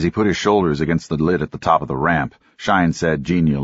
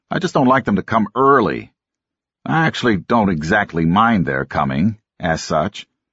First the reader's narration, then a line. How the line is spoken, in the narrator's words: Todd said sullenly